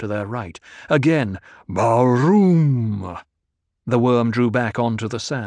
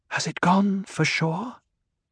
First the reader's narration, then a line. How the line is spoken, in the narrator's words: She whispered